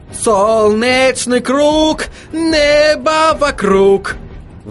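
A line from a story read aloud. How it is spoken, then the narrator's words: Howled. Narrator (Russian): Взвыл Отто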